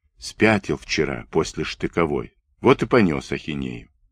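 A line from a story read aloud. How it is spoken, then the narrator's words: Whispered. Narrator (Russian): шепнул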